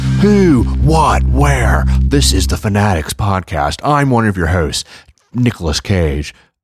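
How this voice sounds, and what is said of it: Nicolas Cage impression. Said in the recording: “doing a funny Nick Cage impression ... the Nick Cage voice? That's very good.”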